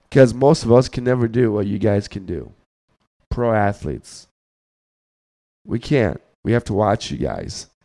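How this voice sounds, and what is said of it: Very deep, hoarse, failing voice. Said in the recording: “I'm losing my voice, so I'm sorry. I got Barry White voice.”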